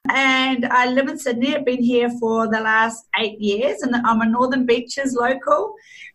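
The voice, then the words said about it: New Zealand accent. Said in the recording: “I'm actually a Kiwi. So you'll probably hear it in my accent. When I say things like pen or fish and chips, you'll be able to hear that I'm a Kiwi.”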